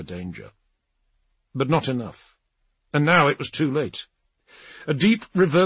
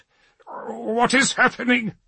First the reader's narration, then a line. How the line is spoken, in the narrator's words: he spluttered